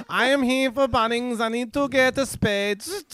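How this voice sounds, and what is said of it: German-accented robot voice. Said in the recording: “It's a German robot.”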